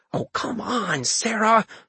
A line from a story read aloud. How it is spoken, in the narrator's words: I mumbled